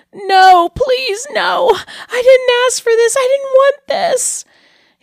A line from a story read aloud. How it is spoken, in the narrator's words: He was terrified